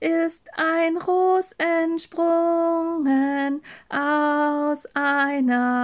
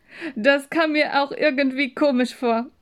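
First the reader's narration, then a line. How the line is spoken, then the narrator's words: Laughing. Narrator (German): sagte sie lachend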